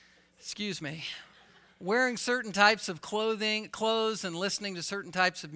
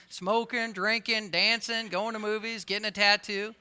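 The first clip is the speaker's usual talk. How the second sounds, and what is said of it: Put-on Southern accent. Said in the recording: “I want to go into a southern accent when I say that”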